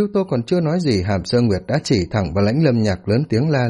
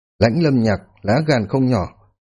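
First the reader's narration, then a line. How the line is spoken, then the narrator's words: Cold. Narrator (Vietnamese): Hàm Thương Yên lạnh lùng nói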